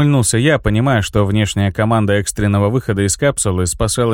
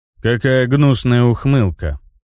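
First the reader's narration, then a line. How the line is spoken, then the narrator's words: Grumbling. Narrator (Russian): Буркнул Ларион, брезгливо, но с интересом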